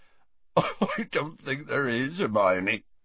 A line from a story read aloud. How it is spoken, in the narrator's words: choked Hagrid, attempting to stem the flood of his tears